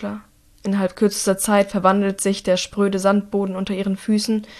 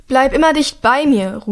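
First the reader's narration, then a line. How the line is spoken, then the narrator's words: Shouting over storm noise. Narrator (German): ruft über den Lärm des Unwetters hinweg zu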